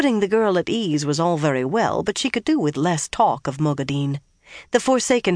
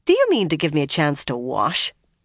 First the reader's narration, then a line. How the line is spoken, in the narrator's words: Nynaeve asked irritably